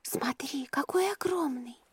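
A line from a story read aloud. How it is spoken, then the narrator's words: Whisper. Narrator (Russian): прошептала Манива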